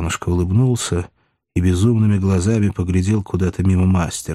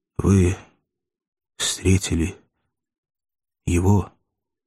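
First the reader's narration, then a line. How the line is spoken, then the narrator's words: Quiet question. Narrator (Russian): тихо сказал Иван и спросил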